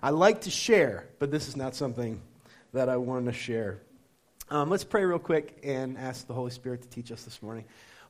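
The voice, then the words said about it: Slightly nasal, congested voice. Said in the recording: “I sound a little nasally, excuse me, I have a cold”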